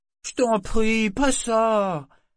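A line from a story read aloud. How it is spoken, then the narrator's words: Young sailor pleading. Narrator (French): fit le jeune marin d'un ton implorant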